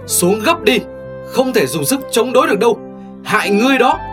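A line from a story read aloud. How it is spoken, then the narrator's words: Loud shout. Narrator (Vietnamese): Tiểu Phi hét to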